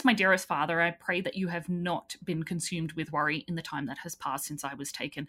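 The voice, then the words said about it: Australian accent. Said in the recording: “You have a beautiful Australian accent.”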